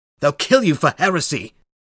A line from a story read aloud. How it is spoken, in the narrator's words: her husband shouted